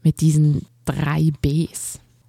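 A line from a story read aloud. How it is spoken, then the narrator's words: Man growling. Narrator (German): knurrte der Mann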